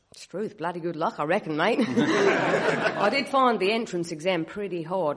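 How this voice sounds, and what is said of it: Australian accent. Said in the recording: “my wife is Australian, and I'm listening to your accent”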